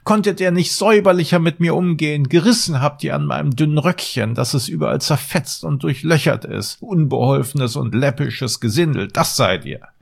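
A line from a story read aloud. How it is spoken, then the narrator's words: Screeching scream. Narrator (German): Als der Zwerg sich von dem ersten Schrecken erholt hatte, schrie er mit einer kreischenden Stimme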